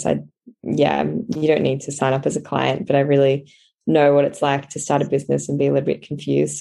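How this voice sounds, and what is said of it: Croaky, monotone voice. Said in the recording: “my voice is so croaky at the moment. So it's very monotonal”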